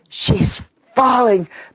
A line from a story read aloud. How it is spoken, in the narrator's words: panted Freckles